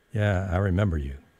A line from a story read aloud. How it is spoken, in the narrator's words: Berg said